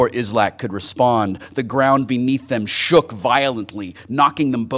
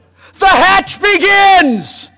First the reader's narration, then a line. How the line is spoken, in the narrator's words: Islak cried